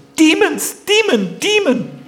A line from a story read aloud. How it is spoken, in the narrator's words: The gopi shouted